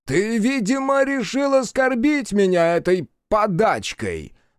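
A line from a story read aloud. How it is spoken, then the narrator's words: Roared. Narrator (Russian): взревел Накадай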